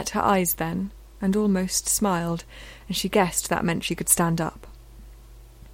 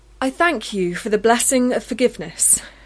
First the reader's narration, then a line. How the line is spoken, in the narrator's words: she said loudly